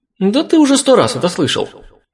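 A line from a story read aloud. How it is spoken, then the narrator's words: Indignant remark. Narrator (Russian): Возмущенно заметил Искин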